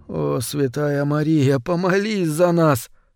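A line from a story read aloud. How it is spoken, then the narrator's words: Muttered. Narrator (Russian): пробормотал Кранц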